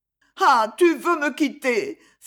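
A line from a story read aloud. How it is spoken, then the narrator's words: Young woman crying out, weeping. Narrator (French): s'écria la jeune femme en pleurant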